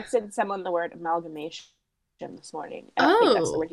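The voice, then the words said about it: Congested, weird-sounding voice. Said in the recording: “I have a bit of a cold, everyone, so I apologize for my weird voice”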